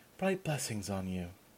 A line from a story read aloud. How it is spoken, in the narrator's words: whispered